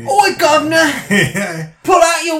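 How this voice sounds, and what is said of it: Put-on Cockney accent. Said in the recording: “It can't be Cockney.”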